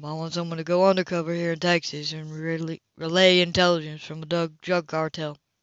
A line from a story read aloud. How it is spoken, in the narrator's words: he said flatly